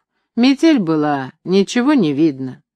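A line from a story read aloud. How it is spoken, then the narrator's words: Sighing. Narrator (Russian): Саша сказал, вздохнув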